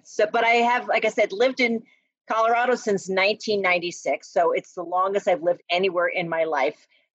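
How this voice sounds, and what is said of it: New Jersey accent. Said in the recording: “I can't get rid of the Jersey accent ... It's sticking around.”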